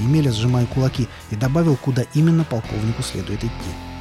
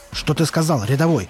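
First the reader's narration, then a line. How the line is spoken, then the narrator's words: Barking. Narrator (Russian): рявкнул он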